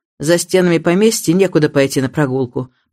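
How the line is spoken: Grumbling. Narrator (Russian): проворчал мистер Крэкенторп

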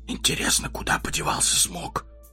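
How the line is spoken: Whisper. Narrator (Russian): прошептал он

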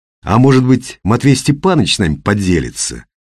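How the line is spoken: Insinuating. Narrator (Russian): вкрадчиво произнес Ренат

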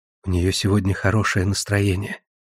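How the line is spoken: Soft smiling whisper. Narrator (Russian): Рахини чуть улыбнулась и прошептала

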